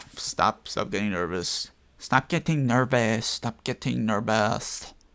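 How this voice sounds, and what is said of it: Put-on Chinese or Vietnamese accent. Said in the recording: “I don't know if that was a Chinese or Vietnamese accent. Foreign, not local Chinese.”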